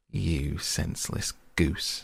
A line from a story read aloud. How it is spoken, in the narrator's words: snarled the dwarf